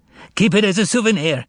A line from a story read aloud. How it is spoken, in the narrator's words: yelled Fagot